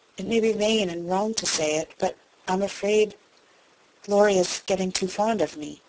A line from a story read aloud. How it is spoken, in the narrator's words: Jo said slowly, with sudden color in her cheeks